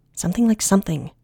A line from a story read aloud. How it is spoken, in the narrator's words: Rin snapped